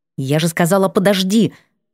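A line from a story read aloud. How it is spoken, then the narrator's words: Angry exclamation. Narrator (Russian): воскликнула сердито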